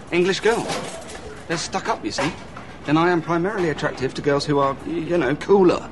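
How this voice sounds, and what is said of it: British accent. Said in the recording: “my cute British accent ... You don't have a cute British accent.”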